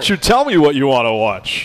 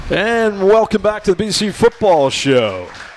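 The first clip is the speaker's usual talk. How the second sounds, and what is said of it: Announcer voice. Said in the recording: “I do my announcer voice ... It's like the movie phone.”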